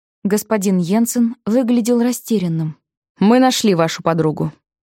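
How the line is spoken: Sad voice. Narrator (Russian): сказал он Алиции почему-то грустным голосом

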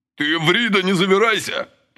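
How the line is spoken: Angry bark. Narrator (Russian): побагровев, рявкнул Василий

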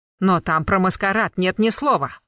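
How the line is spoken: Irritated. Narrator (Russian): раздраженно уточнил Смоловой

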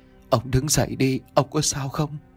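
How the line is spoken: Trembling old woman. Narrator (Vietnamese): Giọng của bà run rẩy mà nói

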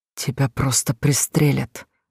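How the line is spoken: Trembling whisper. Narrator (Russian): дрожащим голосом шептал Леня

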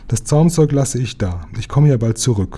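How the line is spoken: Calling out. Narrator (German): rief Susilapitschi

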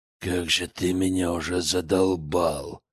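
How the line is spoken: Angry growl. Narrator (Russian): прорычал Виктор

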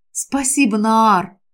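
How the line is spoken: Whisper. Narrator (Russian): прошептала я

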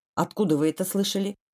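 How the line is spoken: Stern question. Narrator (Russian): строго поинтересовался Хаккинен

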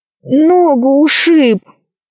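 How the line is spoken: Moaning in pain. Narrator (Russian): простонал Пашка

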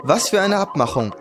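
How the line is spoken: Plain. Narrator (German): fragte

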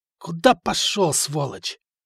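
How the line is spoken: Hoarse voice from behind. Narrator (Russian): за спиной хриплый голос

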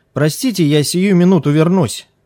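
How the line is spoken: Shout from inside house. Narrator (Russian): крикнул из дома падре

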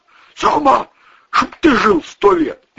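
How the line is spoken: Frightened shout. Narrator (Russian): испуганно крикнул Вовчик

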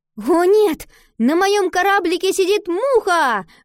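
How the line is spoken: Sudden exclamation. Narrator (Russian): вдруг воскликнула Ива

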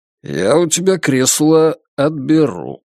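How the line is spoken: Lazy. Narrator (Russian): лениво сообщил он

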